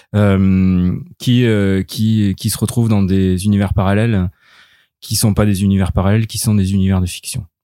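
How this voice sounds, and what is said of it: Slight southern French accent. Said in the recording (French): “un petit accent du sud dans ta voix”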